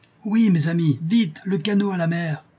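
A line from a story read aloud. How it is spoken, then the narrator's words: Captain exclaiming. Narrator (French): s'écrie le capitaine Liard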